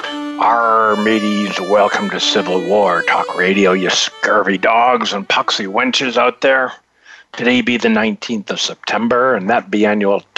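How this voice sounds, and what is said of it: Put-on pirate voice. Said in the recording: “Talk Like a Pirate Day. No, I'm not going to be able to keep that up for an hour.”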